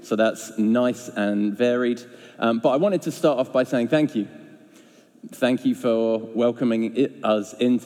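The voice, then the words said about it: Northern Irish Belfast accent. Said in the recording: “as you can tell from my accent, I am Belfast born and bred”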